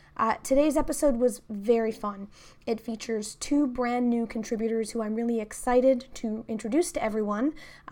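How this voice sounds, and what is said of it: Sick-sounding voice. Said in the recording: “I've also been sick. You can kind of hear that in my voice right now”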